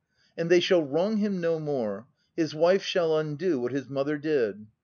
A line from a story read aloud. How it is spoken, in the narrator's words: cried I